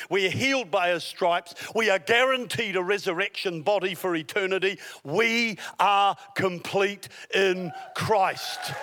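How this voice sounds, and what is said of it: Southern accent. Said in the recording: “that's my southern accent”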